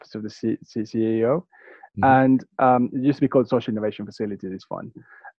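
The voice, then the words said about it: Fast speech, slight British-Spanish accent. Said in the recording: “You speak fast, and you have a slight accent. I don't know if it's I think you have a slight British Spanish accent, which is rare.”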